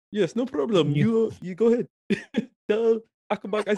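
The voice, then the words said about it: Put-on accent. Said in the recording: “has an accent. ... You should start doing more accents.”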